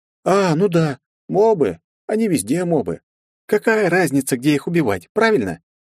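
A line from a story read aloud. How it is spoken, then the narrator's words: Sly or cheerful smiling reply. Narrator (Russian): То ли ехидно, то ли весело улыбнулась мне в ответ Вета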